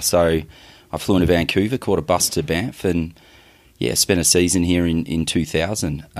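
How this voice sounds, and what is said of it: Australian accent. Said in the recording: “I suppose I'm the typical Australian ... every second person that I see here has an Australian accent”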